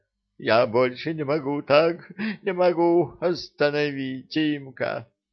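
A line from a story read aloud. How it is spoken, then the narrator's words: Speaking through loud sobs. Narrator (Russian): Маринка заревела чуть ли не в голос и сквозь всхлипывание проговорила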